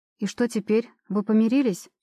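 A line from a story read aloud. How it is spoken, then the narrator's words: Snorting. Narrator (Russian): Димка хмыкает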